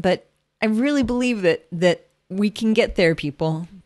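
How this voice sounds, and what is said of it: Choked-up, emotional voice. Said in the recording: “I'm getting choked up even thinking about it”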